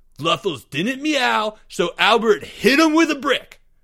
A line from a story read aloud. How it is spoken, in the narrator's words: yelled Greg